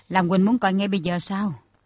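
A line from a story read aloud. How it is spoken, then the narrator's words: Smiling question. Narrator (Vietnamese): Trương Tử Thanh mỉm cười hỏi lại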